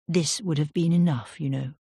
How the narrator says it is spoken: she said

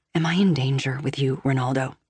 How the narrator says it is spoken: I ask softly

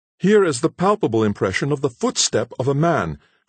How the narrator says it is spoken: cried Hayward

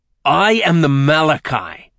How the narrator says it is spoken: Nick sneered at him

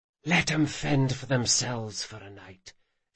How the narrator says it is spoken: she whispered

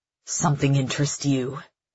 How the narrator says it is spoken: Ptolemus snarls

